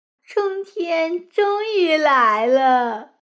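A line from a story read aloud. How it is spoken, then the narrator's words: Smiling. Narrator (Chinese): 她笑着说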